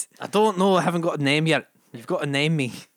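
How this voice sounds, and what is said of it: Put-on Scottish accent. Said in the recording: “Scotty McScottman ... It's as good as my accent”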